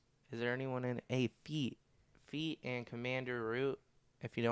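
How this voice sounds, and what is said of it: Usual voice. Nothing is said of it.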